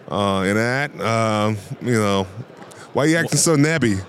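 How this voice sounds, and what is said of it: Put-on Pittsburgh accent. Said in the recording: “showing me your Pittsburgh accent”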